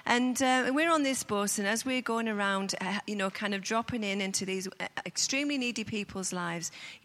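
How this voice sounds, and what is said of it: Speaks with a noticeable accent. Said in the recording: “can you understand my accent?”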